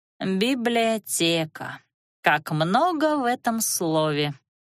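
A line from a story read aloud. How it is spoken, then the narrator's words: Drawn-out philosophical musing. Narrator (Russian): Философски протянула Лана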